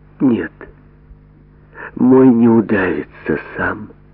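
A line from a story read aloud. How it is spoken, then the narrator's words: Quiet, weighty, like vow. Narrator (Russian): тихо и весомо, как клятву, сказала Роза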